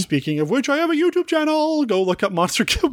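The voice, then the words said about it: Odd put-on voice. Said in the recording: “What was that voice?”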